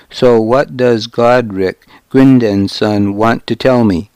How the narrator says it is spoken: I asked

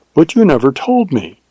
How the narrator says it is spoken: she exclaimed with wonder and reproach

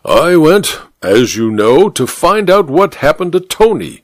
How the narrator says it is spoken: said the judge through gritted teeth

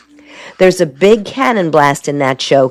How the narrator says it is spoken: Carol laughs

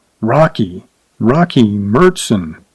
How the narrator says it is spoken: The saddle maker murmured darkly

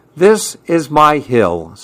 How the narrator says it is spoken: said Billy McGill

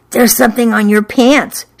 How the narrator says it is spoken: she whispered

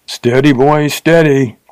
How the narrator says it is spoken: cried the Texan

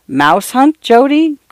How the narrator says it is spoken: Grandfather chuckled

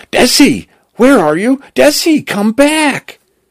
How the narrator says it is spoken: Cal screaming

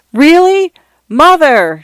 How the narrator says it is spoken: Shanta shouted

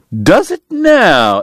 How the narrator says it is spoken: Eddie cried

